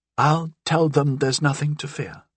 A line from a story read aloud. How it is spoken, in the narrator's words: Barras said, looking doubtfully